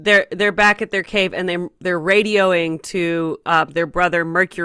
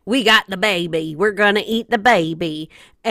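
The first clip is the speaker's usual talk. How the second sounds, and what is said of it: Put-on unidentified accent. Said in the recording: “I don't know what that accent was, but I'm sticking with it ... I feel like it was pretty on point.”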